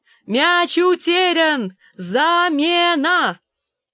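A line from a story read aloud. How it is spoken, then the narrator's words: Shouted. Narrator (Russian): прокричала Гленда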